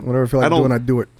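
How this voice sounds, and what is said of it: New York accent slipping in. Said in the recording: “You slipped into, like, New York there... I have, like, a New York accent.”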